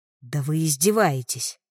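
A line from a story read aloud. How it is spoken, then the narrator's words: Growl. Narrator (Russian): рыкнула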